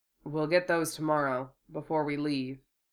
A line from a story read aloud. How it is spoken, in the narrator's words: Hiro answered lazily